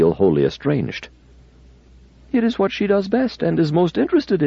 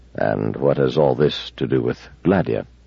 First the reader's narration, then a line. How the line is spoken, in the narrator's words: Bailey said gently